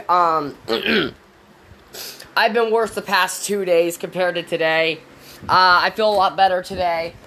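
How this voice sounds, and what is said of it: Sick-sounding voice. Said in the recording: “As you can tell by my voice, I'm definitely sick.”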